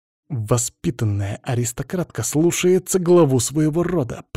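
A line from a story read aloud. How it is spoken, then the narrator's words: Hissed. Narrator (Russian): прошипел Було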